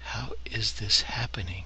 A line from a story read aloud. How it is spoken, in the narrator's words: He spoke in a low voice, introspective and mourning, questioning